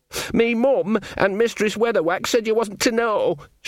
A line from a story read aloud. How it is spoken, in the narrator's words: Sean wailed